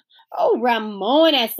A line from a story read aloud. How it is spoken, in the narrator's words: said Beezus, but she had to giggle